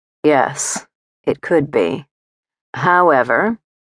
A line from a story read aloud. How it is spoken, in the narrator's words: he said